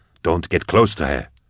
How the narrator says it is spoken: Vorier hissed

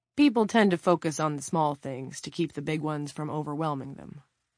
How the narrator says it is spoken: Clint said

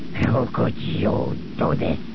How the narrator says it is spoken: He snarled at Zuckus

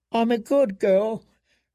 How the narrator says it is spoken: Jane whimpered

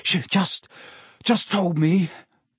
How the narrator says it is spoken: Harry panted

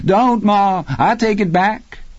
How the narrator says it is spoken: her gray-haired son, who mock-cringed, and cried

